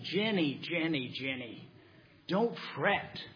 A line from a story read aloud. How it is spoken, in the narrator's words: Eric says gently